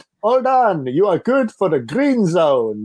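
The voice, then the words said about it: Broad Caribbean accent impression. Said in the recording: “He's Caribbean, and he has a really broad Caribbean accent”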